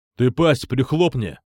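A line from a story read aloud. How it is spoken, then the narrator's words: Angry growl. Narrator (Russian): Зло рыкнул Никита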